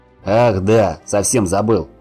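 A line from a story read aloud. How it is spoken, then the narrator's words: Distant growl. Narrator (Russian): рыкнул издали Гриша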